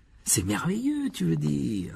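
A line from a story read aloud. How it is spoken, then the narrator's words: Delighted exclamation. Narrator (French): s'exclama Harry d'un ton ravi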